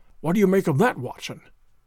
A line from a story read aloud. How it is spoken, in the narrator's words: Holmes whispered